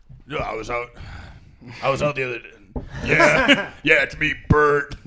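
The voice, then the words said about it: Dumber-sounding imitation of another person. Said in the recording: “that impression ... Not bad for a first pass ... Like dumber. Oh, it's like, let me dumber sounding.”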